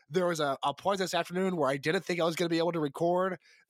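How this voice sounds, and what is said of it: Rough, sick-sounding voice. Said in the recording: “They are going to have to put up with my voice. I'm so sorry. I sound like Blake from Jawbreaker around the time they recorded Kiss the Bottle ... This is the best my voice has sounded all day ... This is my flu game ... you sound like crap”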